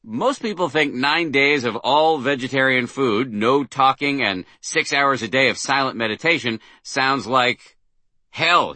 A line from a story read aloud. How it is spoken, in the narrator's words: he said, interrupting me with an utterly non-defensive chuckle